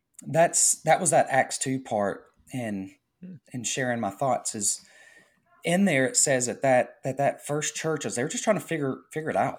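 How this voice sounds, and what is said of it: Voice giving out, strained. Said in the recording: “I feel like my voice is kind of going”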